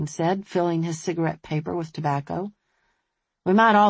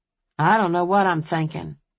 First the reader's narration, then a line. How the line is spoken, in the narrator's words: Wayne said flatly